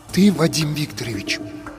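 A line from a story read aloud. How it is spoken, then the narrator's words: Whisper. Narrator (Russian): прошептал друг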